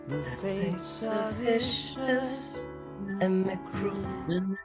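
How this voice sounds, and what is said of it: Girlish put-on singing voice. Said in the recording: “I'm gonna use my girl voice, it still lives in me.”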